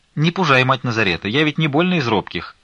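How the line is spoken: Sharp reply. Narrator (Russian): резко ответила Фленушка

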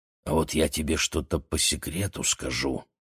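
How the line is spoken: Whisper. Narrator (Russian): прошептал Гриша

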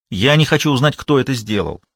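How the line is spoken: Irritated. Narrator (Russian): раздраженно сказала

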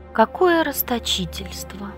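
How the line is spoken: Slow sigh. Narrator (Russian): Неторопливо вздохнул Древний

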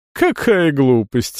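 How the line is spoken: Laughing. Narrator (Russian): Эвита рассмеялась

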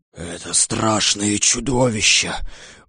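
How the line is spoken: Lion's fearful whisper. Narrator (Russian): боязливо прошептал лев

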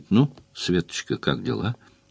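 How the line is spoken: Doctor's gentle question. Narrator (Russian): докторша мягко спрашивает

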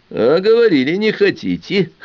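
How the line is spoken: Scoffing hum. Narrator (Russian): хмыкнул Ахмедзянов

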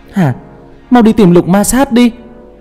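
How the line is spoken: Loud shout. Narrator (Vietnamese): Hoài Nguyệt đứng ở ngoài cửa hét lớn

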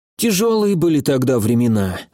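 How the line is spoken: Sigh. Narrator (Russian): вздохнул Драгон

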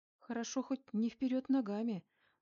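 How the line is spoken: Sad wry chuckle. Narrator (Russian): грустно усмехнулась

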